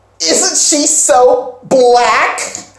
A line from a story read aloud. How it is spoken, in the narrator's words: One girl, who is white, says real loudly